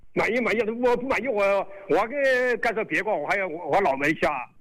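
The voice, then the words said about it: Qianjiang regional Chinese accent. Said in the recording (Chinese): “我听你的口音，你是哪里的 ... 潜江市龙湾镇的”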